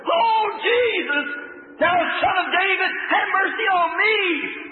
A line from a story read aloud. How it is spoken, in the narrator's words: the old beggar scream to the top of his voice